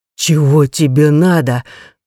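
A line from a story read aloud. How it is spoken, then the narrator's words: Strained words between groans. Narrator (Russian): выдавил грабитель между стонами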